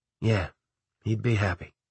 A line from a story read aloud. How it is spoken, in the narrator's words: I said quietly